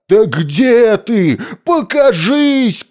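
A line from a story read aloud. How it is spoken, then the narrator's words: Shouting. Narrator (Russian): кричал Кощей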